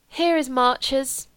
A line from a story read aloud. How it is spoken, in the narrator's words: said with a sigh which meant the end of the holiday